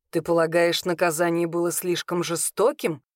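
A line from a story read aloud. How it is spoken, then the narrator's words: Wry grunt. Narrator (Russian): хмыкнул Данис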